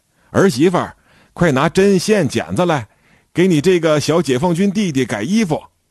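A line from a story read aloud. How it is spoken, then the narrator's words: Calling out to another room. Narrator (Chinese): 大娘朝里屋喊了一声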